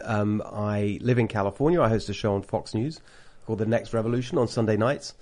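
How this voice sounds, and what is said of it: British accent. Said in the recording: “I've got a British accent... ridiculous British accented person”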